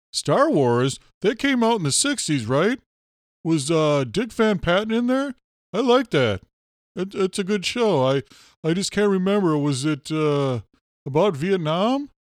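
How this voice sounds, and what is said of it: Impression of a confused movie reviewer. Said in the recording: “my impersonation of Johnny Rage”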